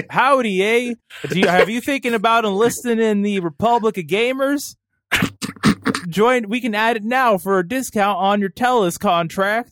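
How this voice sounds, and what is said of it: Fake Canadian accent. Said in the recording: “I'm going to do a fake Canadian accent ... I don't know what that accent is”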